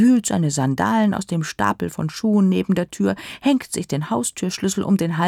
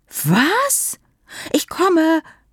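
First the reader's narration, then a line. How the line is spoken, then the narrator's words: Calling into phone. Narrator (German): ruft Peer ins Telefon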